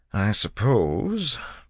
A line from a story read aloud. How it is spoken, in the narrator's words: Breeze said hesitantly